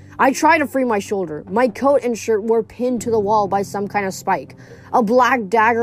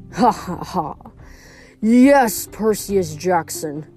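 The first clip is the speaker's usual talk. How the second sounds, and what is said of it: Cold laugh, accented villain voice. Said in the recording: “A cold laugh echoed through the hall. ... His accent mangled the J in my last name.”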